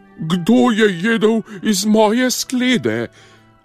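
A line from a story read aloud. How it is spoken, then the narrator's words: Slightly quieter roar. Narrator (Slovenian): Mama medvedka je zarjovela samo malo tiše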